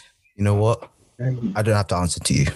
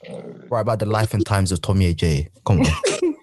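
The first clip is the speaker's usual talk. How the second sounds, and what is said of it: Put-on British accent. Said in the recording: “Why did you say your surname like that... That is not how we say our surname... I'm speaking in British accent”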